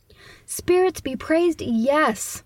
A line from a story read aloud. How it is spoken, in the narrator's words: the old man exclaims